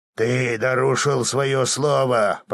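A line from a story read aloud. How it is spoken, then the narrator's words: Growling count. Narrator (Russian): прорычал граф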